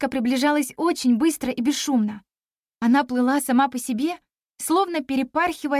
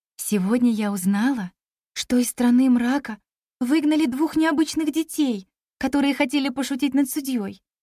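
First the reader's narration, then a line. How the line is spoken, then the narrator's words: Melodious woman's voice. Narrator (Russian): мелодичным голосом произнесла красавица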